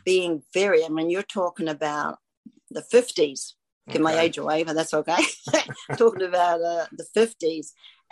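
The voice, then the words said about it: New Zealand accent. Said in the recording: “Obviously, you have an accent. ... Grew up in New Zealand.”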